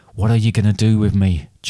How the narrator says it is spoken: Jack asked nervously

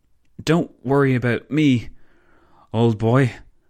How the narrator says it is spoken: the Belgian stammered

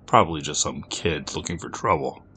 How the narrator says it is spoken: he muttered to himself

